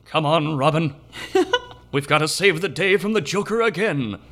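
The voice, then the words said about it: Terrible Adam West impression. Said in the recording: “my terrible Adam West impression.”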